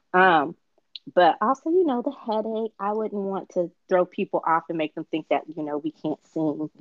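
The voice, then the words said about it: Slightly raspy, lower voice. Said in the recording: “my voice isn't warmed up for that yet ... I'm a little raspy ... I might be sounding a little bit more adult”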